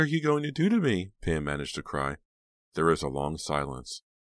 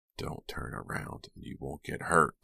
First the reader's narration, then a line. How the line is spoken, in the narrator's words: the voice whispered just behind her